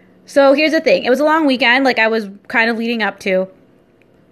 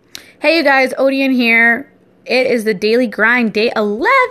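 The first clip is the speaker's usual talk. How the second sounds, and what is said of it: Excited, really high-pitched voice. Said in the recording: “why did your voice just get really high-pitched? But I get excited really easily.”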